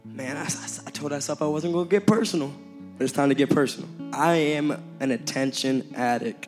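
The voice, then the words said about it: Hoarse, worn-out voice. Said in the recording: “I lost my voice”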